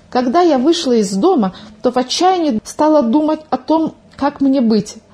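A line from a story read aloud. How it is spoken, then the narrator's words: Agitated storytelling. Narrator (Russian): взволнованно начала свой рассказ Милка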